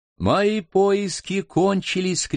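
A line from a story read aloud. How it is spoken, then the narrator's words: Shouted in local dialect. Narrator (Russian): крикнул Ким на местном наречии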